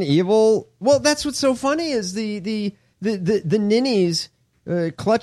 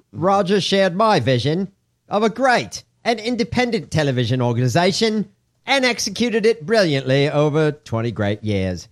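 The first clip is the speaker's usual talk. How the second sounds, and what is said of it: Bad put-on Australian accent. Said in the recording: “My really bad Australian accent.”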